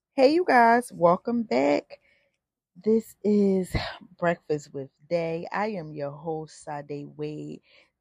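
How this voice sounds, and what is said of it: Raspy voice. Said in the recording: “my voice is like acting like it's always a little raspy, but it's been like raspy ever since I started doing these podcasts ... allergies is acting up”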